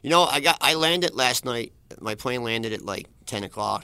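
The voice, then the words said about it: Philadelphia accent. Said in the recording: “You still have that Philly accent.”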